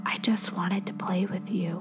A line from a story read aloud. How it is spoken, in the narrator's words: comes out in a whisper from the other end